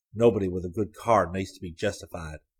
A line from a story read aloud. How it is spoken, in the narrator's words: Hayes murmured